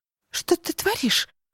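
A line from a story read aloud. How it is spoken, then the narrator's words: Squeak. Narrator (Russian): пискнула Кристал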